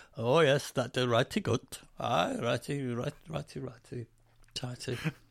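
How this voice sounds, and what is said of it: Comic put-on Danish accent. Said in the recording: “your Danish accent ... That sounds like the chef from The Muppets”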